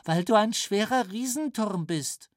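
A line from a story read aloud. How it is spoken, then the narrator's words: Sudden giggle. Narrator (German): kicherte Onni auf einmal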